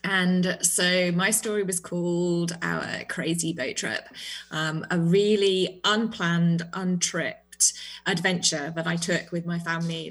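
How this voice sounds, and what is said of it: British accent. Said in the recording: “That lovely accent of yours. ... I am British”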